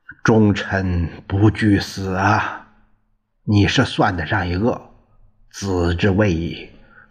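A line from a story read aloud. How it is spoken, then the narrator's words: Admiring praise. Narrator (Chinese): 庄王赞叹不已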